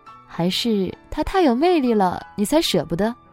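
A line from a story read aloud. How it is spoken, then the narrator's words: Joking question. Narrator (Chinese): 借着玩笑提出疑惑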